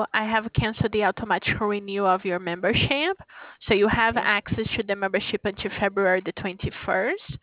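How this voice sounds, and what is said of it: Brazilian-accented English. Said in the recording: “By my accent, it is from Brazil.”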